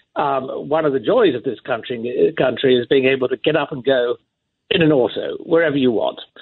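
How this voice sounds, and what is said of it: Non-American accent. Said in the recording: “you can hear by my accent that I'm not from here”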